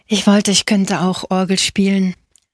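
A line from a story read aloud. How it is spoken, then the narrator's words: Sighing. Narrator (German): seufzte Angelo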